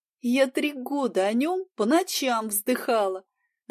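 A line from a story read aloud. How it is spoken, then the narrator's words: Laughing. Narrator (Russian): рассмеялась я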